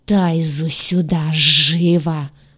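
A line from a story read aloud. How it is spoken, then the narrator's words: Menacing hiss. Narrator (Russian): угрожающе прошипел повелитель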